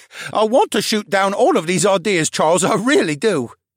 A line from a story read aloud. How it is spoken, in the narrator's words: the brain laughed